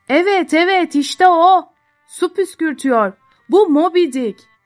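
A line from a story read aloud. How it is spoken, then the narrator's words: Shouting. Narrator (Turkish): diye bağırıyordu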